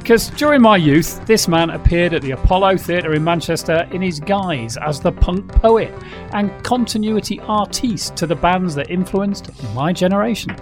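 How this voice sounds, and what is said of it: Manchester accent. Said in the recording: “coming from Manchester, you know. You just get the accent.”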